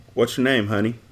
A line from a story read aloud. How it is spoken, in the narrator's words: I asked softly